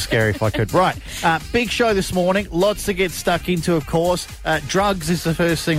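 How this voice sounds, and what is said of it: Usual voice. Nothing is said of it.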